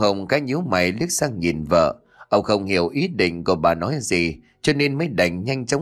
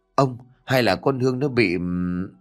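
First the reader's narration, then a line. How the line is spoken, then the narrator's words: Hesitant wife after silence. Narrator (Vietnamese): Bà Hồng sau một hồi im lặng, lúc này mới ngước mắt lên nhìn chồng mà ngập ngừng nói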